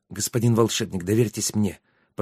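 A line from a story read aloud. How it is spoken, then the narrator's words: Whisper. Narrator (Russian): прошептал Трикс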